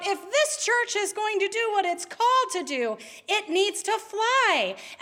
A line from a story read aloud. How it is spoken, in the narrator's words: Overcome with emotion, the minister cried out